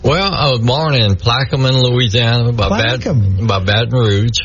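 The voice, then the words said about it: South Louisiana Cajun-blend accent. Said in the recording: “you haven't lost your accent from Plaquemine ... definitely South Louisiana ... it's a Cajun blend, but it's an interesting blend”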